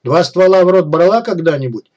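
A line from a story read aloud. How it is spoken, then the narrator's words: Nasty smirking grunt. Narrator (Russian): мерзко хмыкнул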